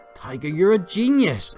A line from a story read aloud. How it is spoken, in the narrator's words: exclaimed Peggy